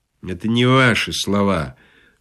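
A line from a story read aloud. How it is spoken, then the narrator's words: Sleepy remark. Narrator (Russian): сонно заметил суфлер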